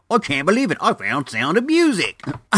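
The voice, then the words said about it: Poor put-on accent. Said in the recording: “That was like the worst accent I have ever made.”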